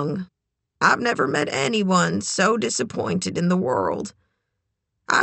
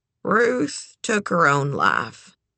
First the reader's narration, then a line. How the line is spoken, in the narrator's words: Eleanor said with a sigh